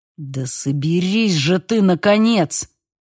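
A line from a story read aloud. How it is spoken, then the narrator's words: Growled. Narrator (Russian): прорычал мистер Ланкастер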